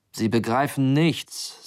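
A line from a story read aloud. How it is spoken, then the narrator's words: Loud speech. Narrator (German): sagte der Passagier so laut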